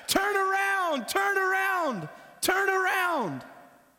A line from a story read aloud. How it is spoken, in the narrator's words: The fans, his teammates, they're yelling at him